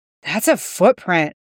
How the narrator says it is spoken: the detective breathed

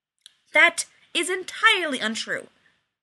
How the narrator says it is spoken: Rodney said angrily

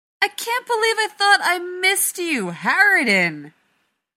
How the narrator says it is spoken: Rodney shouts back

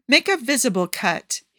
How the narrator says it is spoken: he orders impatiently

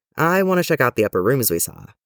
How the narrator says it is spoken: he said

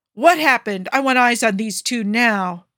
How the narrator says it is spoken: bellowed Fury, for once looking as angry as his name implied

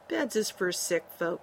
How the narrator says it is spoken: he said softly

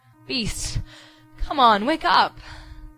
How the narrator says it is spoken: Sam urged, voice climbing desperately

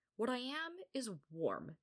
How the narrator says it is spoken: Minyuk said firmly

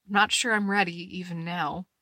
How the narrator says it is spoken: Steve says dryly

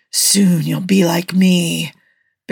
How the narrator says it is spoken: Baron Blood hissed

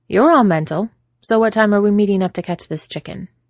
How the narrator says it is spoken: she says, in her usual practical tone

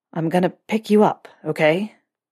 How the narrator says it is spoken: Draco asked, the vibration of his words rumbling through Harry's own chest

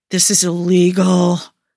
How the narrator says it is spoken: moans Joe

